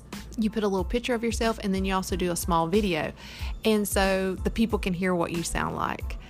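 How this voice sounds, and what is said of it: Slight Southern American accent. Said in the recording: “a slight Southern accent”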